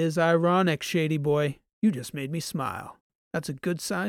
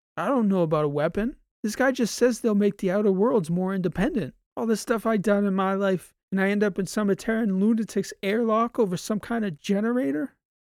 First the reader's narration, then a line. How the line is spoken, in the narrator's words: Transom couldn't help laughing